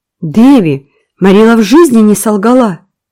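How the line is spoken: Indignant exclamation. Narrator (Russian): воскликнула возмущенная Энн

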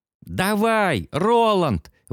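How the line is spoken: Frenzied shout. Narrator (Russian): в исступлении выкрикнул Кадберт

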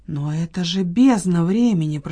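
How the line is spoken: Whisper. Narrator (Russian): прошептала Ирина

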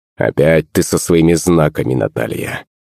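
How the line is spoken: Grumbling. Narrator (Russian): пробурчал Иван

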